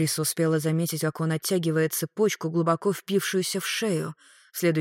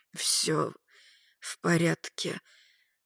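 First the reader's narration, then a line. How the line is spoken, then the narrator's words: Hoarse rasp. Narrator (Russian): Магарыч прохрипел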